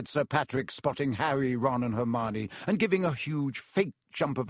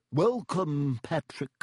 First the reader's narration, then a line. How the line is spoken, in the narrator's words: said Nick stiffly